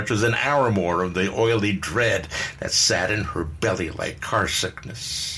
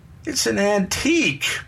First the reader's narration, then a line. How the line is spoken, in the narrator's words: Bernie whined